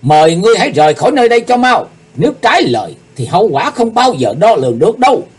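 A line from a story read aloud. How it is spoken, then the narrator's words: Near-shouting warning. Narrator (Vietnamese): kiếm khách quay sang Ngọc Diện Diêm Bà nói như quát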